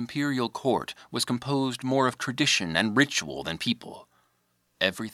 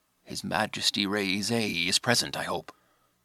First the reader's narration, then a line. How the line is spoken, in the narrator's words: whispered to Kanemura